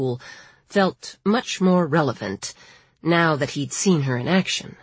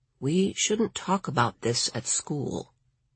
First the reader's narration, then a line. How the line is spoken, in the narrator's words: Lawrence said very quietly